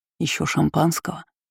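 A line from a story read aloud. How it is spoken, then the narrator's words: Whisper in ear. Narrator (Russian): прошептал на ухо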